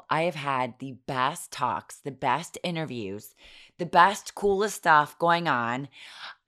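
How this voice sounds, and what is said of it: Hoarse, worn-out voice. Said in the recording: “that is not pretty. That is not good. My voice is so shot”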